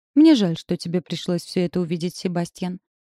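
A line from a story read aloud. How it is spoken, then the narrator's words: Calm voice. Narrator (Russian): сказала леди Сила спокойным голосом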